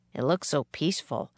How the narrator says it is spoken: said Jack

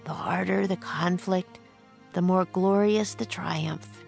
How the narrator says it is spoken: Jack whispered

